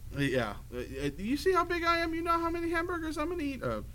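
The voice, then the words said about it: High-pitched arguing voice. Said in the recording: “that high voice you did when you were arguing ... you argue back, you go way up ... there ... You go very Jay Leno”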